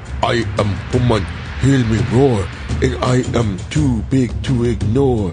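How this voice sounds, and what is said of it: Put-on Native American accent. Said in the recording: “let me do it in Indian accent. Native American.”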